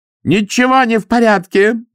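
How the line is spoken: Angry shout. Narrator (Russian): закричала она

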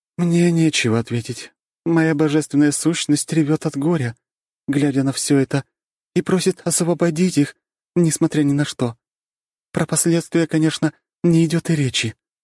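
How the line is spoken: Sighing. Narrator (Russian): вздохнула богиня любви и соблазна, свободы и согревающего пламени, поддержки и карающего пламени

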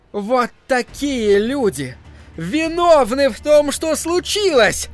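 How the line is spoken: Shouting. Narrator (Russian): закричала миссис Кармоди

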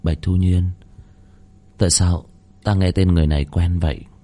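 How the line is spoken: Group muttering. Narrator (Vietnamese): Đám tiên nhân bị cầm tù lẩm bẩm

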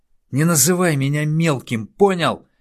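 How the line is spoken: Instant yell. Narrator (Russian): сходу завопил тот

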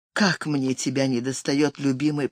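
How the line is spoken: Longing whisper. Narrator (Russian): прошептала

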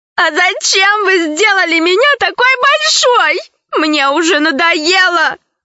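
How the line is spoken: Sobbing slave woman. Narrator (Russian): продолжала рыдать рабыня

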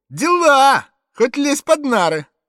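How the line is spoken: Cheerful, composed shout. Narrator (Russian): А вот Зэк не утратил присутствия духа, он весело крикнул

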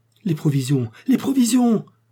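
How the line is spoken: Exclaiming. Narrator (French): s'écria le docteur

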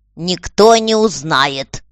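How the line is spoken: Angry. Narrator (Russian): ответила сердито дама

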